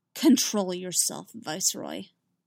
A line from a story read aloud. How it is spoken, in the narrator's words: Dooku said coldly